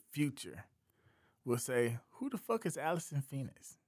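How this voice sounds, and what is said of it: Accent, sounds like Phoenix. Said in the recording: “I know it sounded like I said Phoenix. It's ... So that's my accent.”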